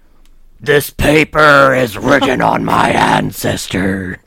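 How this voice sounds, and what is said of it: Game character voice, wrestler-like. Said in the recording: “that your Maokai impression ... it got to a little bit Macho Man Randy Savage there”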